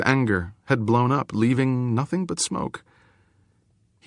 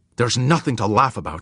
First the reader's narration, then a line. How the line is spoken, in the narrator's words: Otora said fiercely